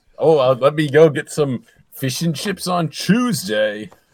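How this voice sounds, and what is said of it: Put-on British accent. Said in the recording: “this is a British accent.”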